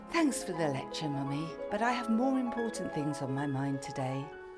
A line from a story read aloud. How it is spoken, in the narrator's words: Annabel sighed